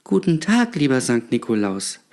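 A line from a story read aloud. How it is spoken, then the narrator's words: Child stammering. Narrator (German): stammelte das Kind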